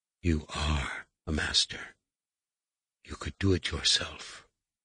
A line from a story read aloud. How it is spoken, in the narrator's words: she said, lowering her voice even farther